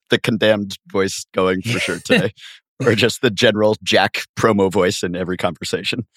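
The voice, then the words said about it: Hoarse voice. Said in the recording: “I sound like this, which is not ideal... still dealing with some voice issues. This hoarseness”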